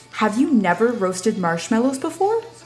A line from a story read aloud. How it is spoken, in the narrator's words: exclaims